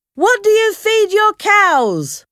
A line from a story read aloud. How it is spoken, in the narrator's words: Uncle Salters shouted